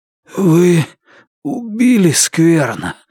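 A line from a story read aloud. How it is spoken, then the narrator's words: Hoarse rasp. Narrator (Russian): прохрипел Лун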